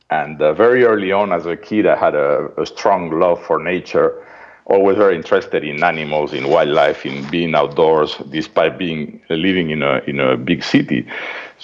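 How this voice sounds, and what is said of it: Spanish accent from Madrid. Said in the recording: “This funny accent is from Madrid, Spain”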